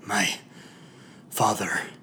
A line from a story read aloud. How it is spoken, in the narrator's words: I grunted